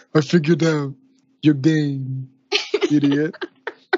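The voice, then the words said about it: Poor imitation of another person's voice. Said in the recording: “worst Christopher Walken impression ever ... bad Christopher Walken impression”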